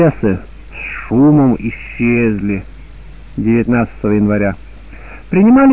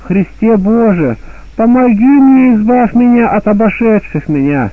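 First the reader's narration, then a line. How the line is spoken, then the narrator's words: Holy man crying out. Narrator (Russian): Преподобный вопиял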